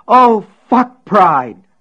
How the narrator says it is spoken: Polly shrieked suddenly

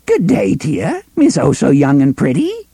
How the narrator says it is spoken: Aunt Cord greeted her in a cracked, vivacious voice

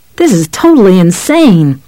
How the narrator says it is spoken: Johnny shouted

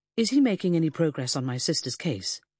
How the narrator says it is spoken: Peter asked

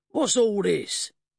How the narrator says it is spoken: Horwich bellowed in his best military manner

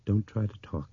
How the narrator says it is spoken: she said quietly

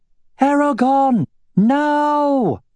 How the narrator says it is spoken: shouted Arya

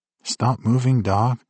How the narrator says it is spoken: I pleaded silently

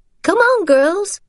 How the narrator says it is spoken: Rachel called out to Sophie and Sarah

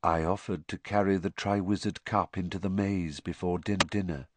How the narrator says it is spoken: whispered T

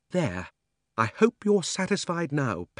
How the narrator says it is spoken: panted Polly

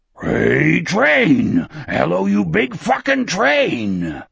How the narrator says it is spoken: This shout was guttural, little more than an animal roar

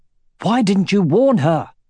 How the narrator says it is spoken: exclaimed Aragorn

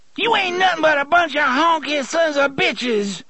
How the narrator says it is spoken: she screamed

